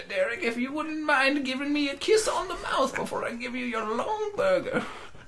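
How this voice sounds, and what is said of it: Old lady character voice. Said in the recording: “That's a really good old lady voice ... you suddenly started turning into Foghorn Leghorn”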